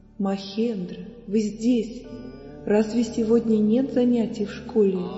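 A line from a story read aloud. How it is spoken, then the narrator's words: Gentle, affectionate. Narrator (Russian): Шри Рамакришна ласково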